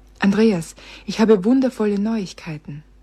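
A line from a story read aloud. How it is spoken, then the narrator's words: Breathless. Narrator (German): sagte sie atemlos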